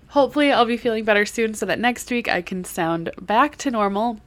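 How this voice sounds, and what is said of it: Hoarse, congested voice from a cold. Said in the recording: “I am nursing a cold, so if I sound a little hoarse or a little congested. Uh, I am.”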